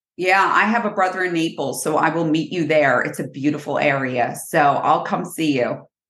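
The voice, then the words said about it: New Jersey accent. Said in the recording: “a Jersey girl today. I've missed that accent.”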